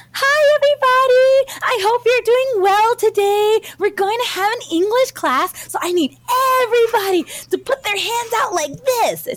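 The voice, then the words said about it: Loud, perky, high-energy English teacher voice. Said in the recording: “the way she talks the whole time is like this weird, perky, like English teacher vibe ... it might get loud for a second ... you have to be super like high energy ... it sounds like a children's program ... you enunciate”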